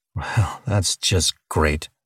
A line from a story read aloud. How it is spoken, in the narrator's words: Charlie grumbled